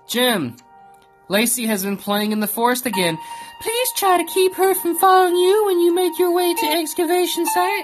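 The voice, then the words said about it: Imitates another person's voice. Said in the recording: “my impersonation of Taylor impersonating the guy reading the note”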